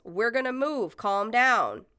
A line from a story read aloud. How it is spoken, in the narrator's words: Someone yells